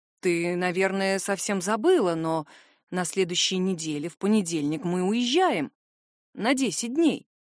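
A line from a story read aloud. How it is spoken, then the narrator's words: Stepfather muttering. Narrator (Russian): пробормотал мой отчим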